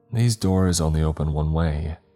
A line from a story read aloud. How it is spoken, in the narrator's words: she sighed